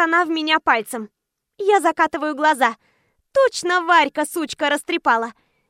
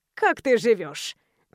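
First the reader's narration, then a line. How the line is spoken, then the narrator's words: Questioning. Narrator (Russian): Начинает она допрос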